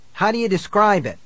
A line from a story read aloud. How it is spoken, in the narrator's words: he cried